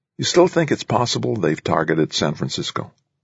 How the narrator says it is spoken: Gently, Coggins asked

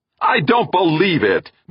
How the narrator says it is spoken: Meek fairly shouted

